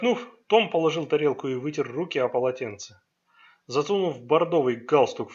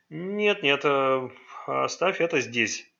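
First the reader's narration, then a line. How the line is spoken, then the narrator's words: Grumbling. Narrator (Russian): проворчал Райм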